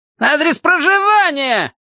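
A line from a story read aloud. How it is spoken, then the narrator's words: Shouted again. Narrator (Russian): опять прокричал штабс-прапорщик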